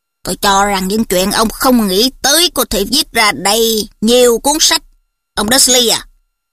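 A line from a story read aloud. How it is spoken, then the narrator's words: Growling. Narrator (Vietnamese): Thầy Moody gầm gừ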